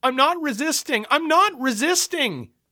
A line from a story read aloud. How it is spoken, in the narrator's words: I wailed